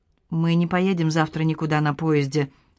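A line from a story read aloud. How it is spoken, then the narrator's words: Calm statement. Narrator (Russian): спокойно сообщила Шири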